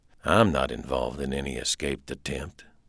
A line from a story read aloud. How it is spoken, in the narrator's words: said softly